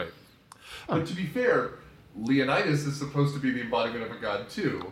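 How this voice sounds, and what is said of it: Usual voice. Nothing is said of it.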